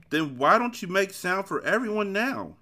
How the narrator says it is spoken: He shouted so eagerly

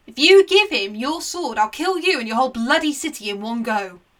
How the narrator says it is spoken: Aeneas roared over him

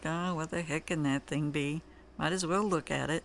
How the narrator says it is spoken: I heaved a deep sigh and groaned something like

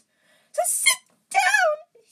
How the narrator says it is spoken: he wailed

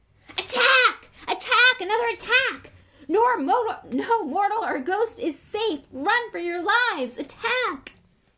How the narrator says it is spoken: filled his lungs, and ... screamed

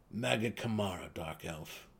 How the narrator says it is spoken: the deep gnome chuckled

